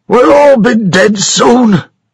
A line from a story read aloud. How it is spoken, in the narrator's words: shouted Thomas Buchanan angrily